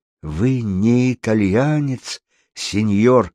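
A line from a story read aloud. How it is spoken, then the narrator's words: Timid question. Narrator (Russian): робко спросил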